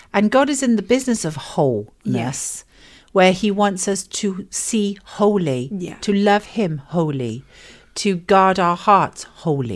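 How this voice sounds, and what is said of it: Welsh accent. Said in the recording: “That's really hard to say with a Welsh accent.”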